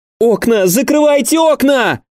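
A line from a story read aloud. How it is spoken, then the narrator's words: Full-voiced shout. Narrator (Russian): во весь голос закричала Джин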